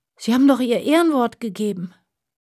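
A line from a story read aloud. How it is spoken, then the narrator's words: Groaning. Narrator (German): stöhnte Aljoscha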